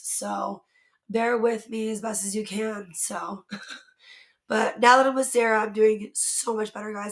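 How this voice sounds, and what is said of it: Hoarse, strained, partly lost voice. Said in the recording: “If y'all can tell, I've kind of lost my voice... I just talk too much and kind of lost my voice.”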